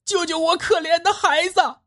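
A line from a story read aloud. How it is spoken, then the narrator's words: Shrill anguished cry. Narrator (Chinese): 一声凄厉的喊声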